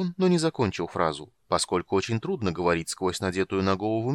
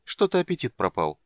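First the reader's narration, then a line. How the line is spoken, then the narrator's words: Calm. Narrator (Russian): спокойно сказала постоялица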